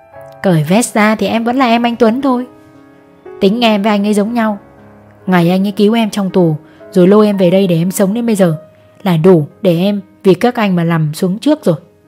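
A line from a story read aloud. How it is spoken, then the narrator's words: Smiling. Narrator (Vietnamese): Long mỉm cười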